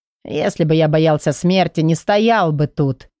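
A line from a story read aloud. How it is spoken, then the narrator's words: Scoffing snort. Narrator (Russian): хмыкнул Петри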